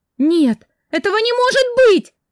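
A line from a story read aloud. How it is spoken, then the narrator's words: Frantic screaming. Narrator (Russian): кричала, как сумасшедшая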